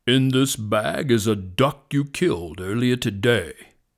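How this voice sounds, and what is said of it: Serious lion voice. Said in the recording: “said the lion with a serious voice.”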